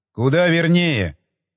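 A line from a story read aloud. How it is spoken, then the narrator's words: Rude reply. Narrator (Russian): грубо ответил Хилкрест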